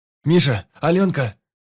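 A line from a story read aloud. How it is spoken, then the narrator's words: Shouted. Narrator (Russian): крикнул он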